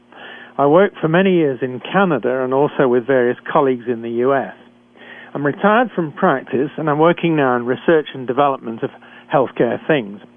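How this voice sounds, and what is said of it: British accent. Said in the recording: “a physician trained in Britain, as I'm sure you can tell from my accent.”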